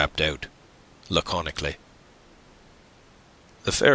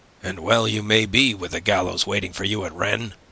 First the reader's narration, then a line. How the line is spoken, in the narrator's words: growled the ferryman